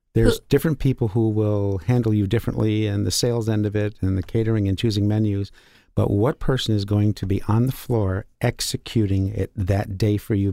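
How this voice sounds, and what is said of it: Rich, polished radio voice. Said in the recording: “you have a really good radio voice.”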